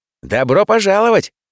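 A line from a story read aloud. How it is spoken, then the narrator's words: Cheerful boss's voice. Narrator (Russian): Бодро прозвучал голос шефа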